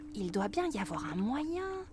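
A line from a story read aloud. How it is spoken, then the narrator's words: Murmured. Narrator (French): murmure Flora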